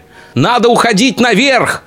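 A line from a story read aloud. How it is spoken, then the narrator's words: Shouted. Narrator (Russian): крикнул Денис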